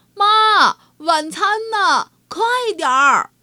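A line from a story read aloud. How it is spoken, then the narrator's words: Loud clamoring children. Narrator (Chinese): 张开大嘴巴，又开始嚷嚷开来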